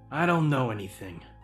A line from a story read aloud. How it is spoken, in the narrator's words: he said gruffly